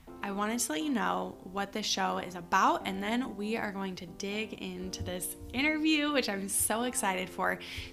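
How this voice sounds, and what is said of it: Raspy, hoarse morning voice. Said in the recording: “This raspy voice is not normal. This is allergies and morning voice”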